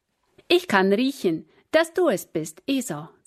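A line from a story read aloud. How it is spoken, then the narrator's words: Plain. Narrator (German): sagte Isaac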